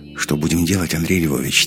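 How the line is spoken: Quiet question. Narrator (Russian): тихо спросил Иванов

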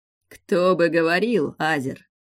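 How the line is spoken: Laughing. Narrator (Russian): Рассмеялся синеволосый

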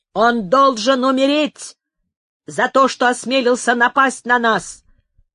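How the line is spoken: Furious shouting. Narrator (Russian): кричал с бешенством один из карлистов

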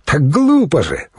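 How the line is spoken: Exclaimed. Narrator (Russian): воскликнул Йонах

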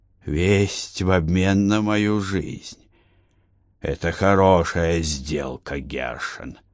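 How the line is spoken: Hoarse rasp. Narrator (Russian): прохрипел Егошуа

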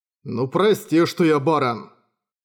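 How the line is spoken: Grumbling. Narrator (Russian): проворчал Юсихико

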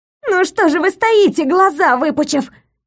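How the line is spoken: Wailing yell. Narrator (Russian): завопилось дерево Паулина

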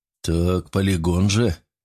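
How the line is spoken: Mumbled. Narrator (Russian): промямлил ректор

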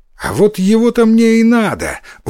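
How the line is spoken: Exclaimed. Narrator (Russian): воскликнул Иссумбоси

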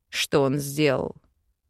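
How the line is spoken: Angry question. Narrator (Russian): зло спросил Вел

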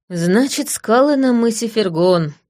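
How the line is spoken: Sighing. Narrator (Russian): вздохнула я

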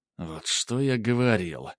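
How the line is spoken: Through gritted teeth. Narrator (Russian): Процедил Грубер

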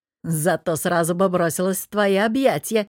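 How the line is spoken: Insinuating. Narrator (Russian): намекнул Богдан

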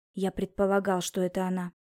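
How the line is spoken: Whisper. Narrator (Russian): прошептал он

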